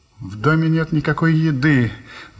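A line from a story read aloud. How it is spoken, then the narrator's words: Sighing. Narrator (Russian): вздохнула леди Дейн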